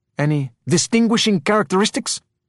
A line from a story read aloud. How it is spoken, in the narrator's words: He blurted